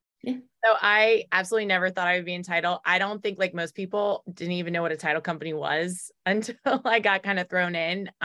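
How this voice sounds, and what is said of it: Baltimore accent. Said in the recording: “if you can't tell, I developed a Baltimore accent up here”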